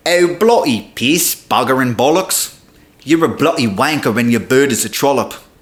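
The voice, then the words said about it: Exaggerated mocking British accent impression. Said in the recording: “want to hear my impression of you? ... That's what you sound like. You make me not want to speak the English language. British cracker”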